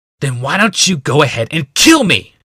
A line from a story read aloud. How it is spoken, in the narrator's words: Gix shouted